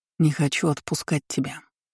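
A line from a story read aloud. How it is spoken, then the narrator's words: Whisper. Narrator (Russian): прошептал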